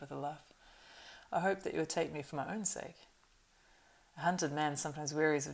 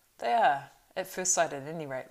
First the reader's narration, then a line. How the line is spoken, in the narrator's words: laughed Pippin with sudden relief